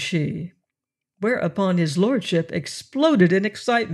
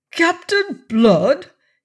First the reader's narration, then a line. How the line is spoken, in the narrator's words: cried